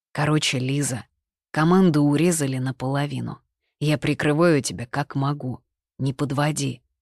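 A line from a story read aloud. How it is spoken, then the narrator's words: Even-voiced scolding. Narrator (Russian): ровным голосом отчитал Борис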